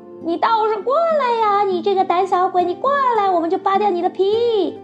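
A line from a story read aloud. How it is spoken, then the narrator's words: Threatening shouts. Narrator (Chinese): 连喊带吓唬，警告狐狸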